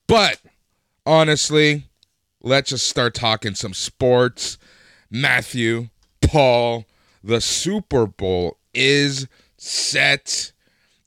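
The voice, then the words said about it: Raspy, slightly sick-sounding voice. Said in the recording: “Even I'm feeling a little sick and raspy, but I've been talking for 12 hours already today”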